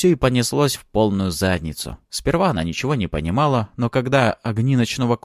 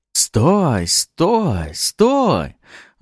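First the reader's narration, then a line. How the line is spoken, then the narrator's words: Gentle mutter. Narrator (Russian): Ласково пробормотал тот парнишка, теперь казавшийся чудовищем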